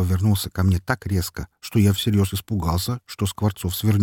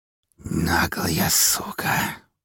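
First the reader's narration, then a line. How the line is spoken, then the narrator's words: Hissing man. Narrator (Russian): прошипел стоящий рядом со мной мужчина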